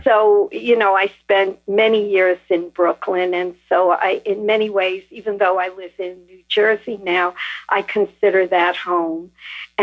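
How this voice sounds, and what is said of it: New York accent. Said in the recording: “I deduce from your accent that you might be from New York area.”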